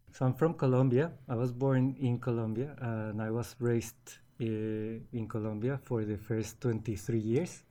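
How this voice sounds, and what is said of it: Slight foreign accent. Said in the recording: “You've clearly got a bit of an accent. I'm going to assume that you didn't start your journey in Australia.”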